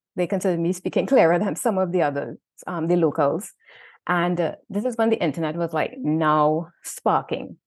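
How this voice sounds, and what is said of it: Trinidadian accent. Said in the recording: “my Trinidad accent, apparently I spoke a little clearer”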